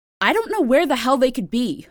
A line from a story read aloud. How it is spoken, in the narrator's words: a girl's voice snapped